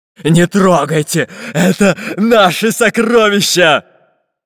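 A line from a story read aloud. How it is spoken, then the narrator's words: Menacing pirate shout. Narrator (Russian): Грозным голосом закричал пират Буль-Буль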